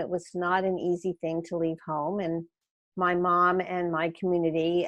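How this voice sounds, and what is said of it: Philadelphia accent. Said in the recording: “You can tell I have not lost my Philadelphia accent all these years later.”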